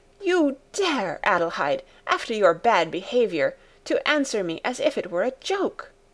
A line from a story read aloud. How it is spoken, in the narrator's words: With raised voice she exclaimed